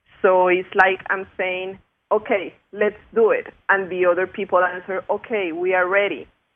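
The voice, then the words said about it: Spanish accent. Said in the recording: “my Spanish accent”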